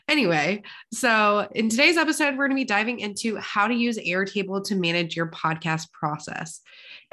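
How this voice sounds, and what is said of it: Congested voice with vocal fry. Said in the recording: “So sorry for the vocal fry today. I am a little bit congested.”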